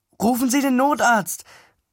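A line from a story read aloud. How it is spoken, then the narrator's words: Calling out. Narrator (German): rief ich der Frau zu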